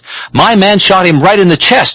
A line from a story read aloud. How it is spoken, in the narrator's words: screamed as though he was about to miss a stuffed toy prize at a carnival contest